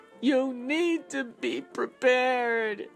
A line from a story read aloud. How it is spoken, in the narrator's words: she yells